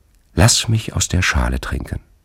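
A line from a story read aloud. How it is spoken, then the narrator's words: Touching, moving voice. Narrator (German): sagte er mit rührender Stimme zu der Frau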